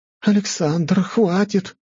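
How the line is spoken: Pleading teacher. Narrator (Russian): взмолилась учительница

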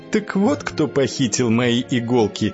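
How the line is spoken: Woman laughing. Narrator (Russian): засмеялась высокая красивая женщина

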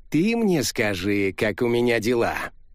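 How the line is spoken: Grumbled. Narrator (Russian): проворчал француз

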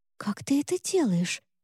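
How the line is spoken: Whispered. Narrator (Russian): прошептала она

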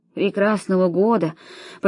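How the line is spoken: Muffled murmur. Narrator (Russian): пробормотала она за своими ставнями

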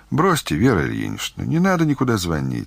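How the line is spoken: More confident. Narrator (Russian): сказала Таня уже более уверенным тоном

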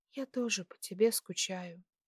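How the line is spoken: Whisper. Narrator (Russian): прошептала

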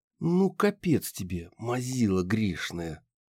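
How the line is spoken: Hissed. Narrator (Russian): прошипела Банши

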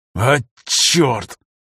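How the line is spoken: Through gritted teeth. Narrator (Russian): процедил Афанасьев сквозь зубы

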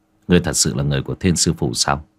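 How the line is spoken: Low, thoughtful. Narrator (Vietnamese): Bạch Tử Cống trầm tư rồi hạ giọng

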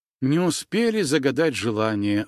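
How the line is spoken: Sighing. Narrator (Russian): вздохнула Женя

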